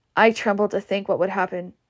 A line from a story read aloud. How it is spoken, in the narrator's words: said Rhett